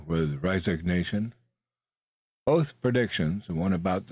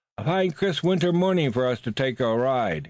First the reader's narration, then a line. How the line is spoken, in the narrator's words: said cheerfully